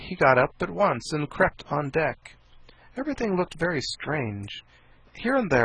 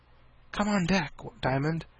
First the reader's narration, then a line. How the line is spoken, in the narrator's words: she whispered in his ear